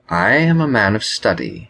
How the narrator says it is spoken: Genario replied in a calm tone

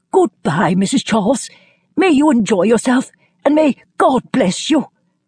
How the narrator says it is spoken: was sorry that he was too late, and called out in a quivering voice

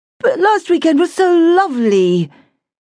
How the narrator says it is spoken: moaned the girl

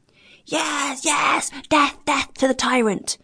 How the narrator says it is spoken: shouted the greater number of the seamen, threatening their captain

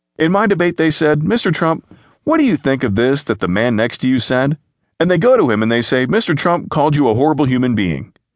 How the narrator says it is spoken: said, mocking

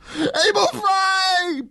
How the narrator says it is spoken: Bolts screamed

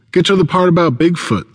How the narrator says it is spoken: someone shouts, my friend Ken

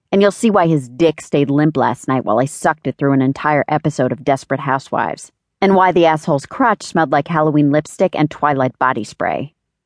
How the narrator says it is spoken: snapped Meg

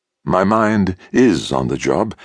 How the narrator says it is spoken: Yithra said calmly

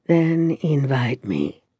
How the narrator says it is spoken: whispered against my lips

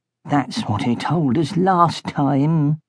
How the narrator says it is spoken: Blood whispered to Bone

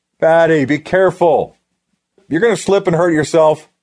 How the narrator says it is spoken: Jack yelled at her

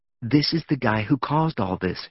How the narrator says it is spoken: whispered

